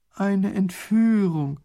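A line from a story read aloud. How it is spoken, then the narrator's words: Groaning. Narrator (German): stöhnt Raffini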